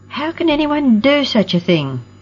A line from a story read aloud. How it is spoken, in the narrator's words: Roxy exclaimed